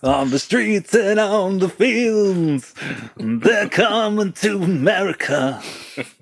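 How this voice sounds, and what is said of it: Imitates another person's singing voice. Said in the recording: “It's a very good impression.”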